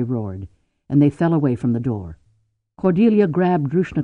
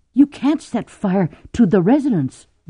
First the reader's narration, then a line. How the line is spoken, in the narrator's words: Drew gasped in horror